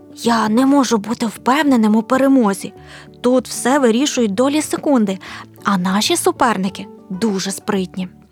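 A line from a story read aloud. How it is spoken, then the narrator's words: Father's whisper. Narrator (Ukrainian): Наш татко прошепотів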